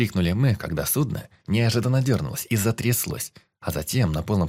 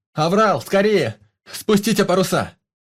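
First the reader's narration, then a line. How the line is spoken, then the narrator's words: Shouting. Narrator (Russian): крикнул кто-то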